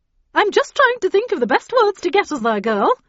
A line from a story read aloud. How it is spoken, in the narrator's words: replied cheerfully